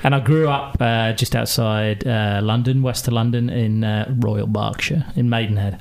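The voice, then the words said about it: Glaswegian Scottish accent. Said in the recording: “I was born in Glasgow. You can tell by the accent.”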